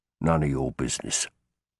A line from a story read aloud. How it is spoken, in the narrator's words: he muttered